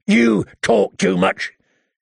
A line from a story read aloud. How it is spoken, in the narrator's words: he grumbled